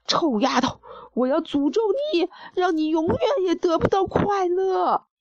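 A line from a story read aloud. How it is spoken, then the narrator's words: Loud shout. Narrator (Chinese): 公爵 大声喊道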